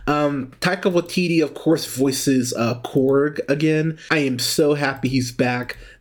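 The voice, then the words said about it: Strained voice giving out. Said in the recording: “Pardon me, as I lose my voice here.”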